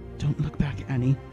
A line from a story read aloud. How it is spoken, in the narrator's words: she whispered